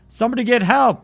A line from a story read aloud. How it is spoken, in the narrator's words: the man yelled